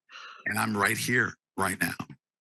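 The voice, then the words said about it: Choked-up, emotional voice. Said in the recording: “I get choked up. You know why I get choked up?”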